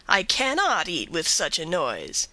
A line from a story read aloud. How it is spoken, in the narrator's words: exclaiming